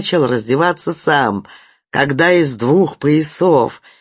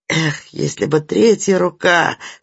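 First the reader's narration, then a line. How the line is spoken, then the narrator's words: Muttered through teeth. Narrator (Russian): сквозь зубы пробормотал Кеша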